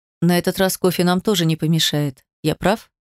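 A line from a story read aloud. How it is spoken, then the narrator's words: Quiet speech. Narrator (Russian): Демьян негромко сказал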